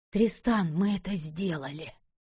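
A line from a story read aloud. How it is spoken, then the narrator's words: Hoarse rasp. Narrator (Russian): Прохрипела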